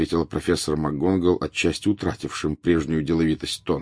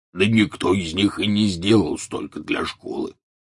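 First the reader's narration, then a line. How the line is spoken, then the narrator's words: Grumbling. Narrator (Russian): проворчал Хагрид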